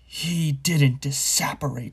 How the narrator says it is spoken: Snape roared, now very close at hand

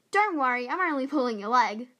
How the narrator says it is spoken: Her brother started laughing and cried out

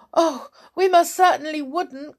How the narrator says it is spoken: cried Mrs

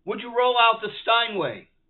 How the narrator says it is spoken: called out

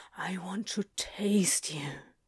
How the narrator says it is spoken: he said in a ragged whisper

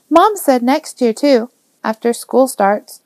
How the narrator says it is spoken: She looked so sad as she said it, Joe couldn't help but exclaim

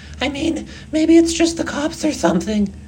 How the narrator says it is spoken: CJ sputtered

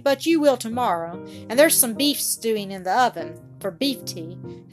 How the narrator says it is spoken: said Bobby firmly

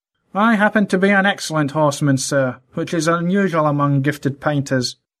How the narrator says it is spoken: replied Otterbridge in his thin, nasal voice

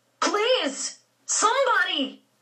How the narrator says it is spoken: George screamed

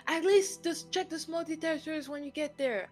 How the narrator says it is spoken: I shouted from after her

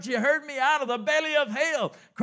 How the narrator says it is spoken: cried I

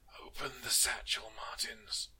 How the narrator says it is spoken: Arco rasped

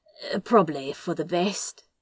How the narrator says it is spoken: he said, and his voice was slightly rough

